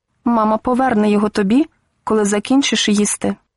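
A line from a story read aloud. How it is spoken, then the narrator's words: Calm. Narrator (Ukrainian): спокійно сказав він Алевтині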